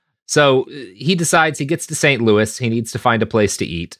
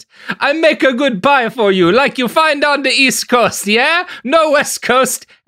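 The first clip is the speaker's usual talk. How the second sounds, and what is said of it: Thick Italian accent. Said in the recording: “A small man stood beside the counter with a thick Italian accent.”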